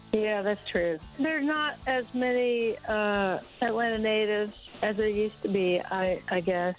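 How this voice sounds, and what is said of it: Southern American accent. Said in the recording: “you have such a beautiful Southern accent that there's not many of us that have this accent anymore”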